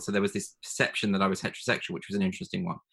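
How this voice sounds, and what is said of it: Educated-sounding RP British accent. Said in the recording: “You have a lovely uh, RP accent, though. You do sound ... educated.”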